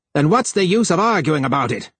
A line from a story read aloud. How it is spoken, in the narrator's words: he would shout at Harlan